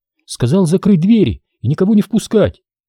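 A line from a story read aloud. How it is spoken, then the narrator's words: Confused. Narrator (Russian): растерянно добавила Никитина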